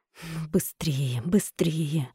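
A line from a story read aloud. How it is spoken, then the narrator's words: Urgent repeated whisper. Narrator (Russian): шептал Сергей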